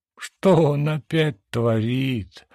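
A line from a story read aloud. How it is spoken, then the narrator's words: Despairing groan. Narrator (Russian): простонала, в отчаянии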